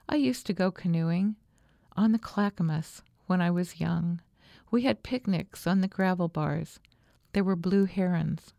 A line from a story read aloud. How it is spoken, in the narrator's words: she would say in a softer voice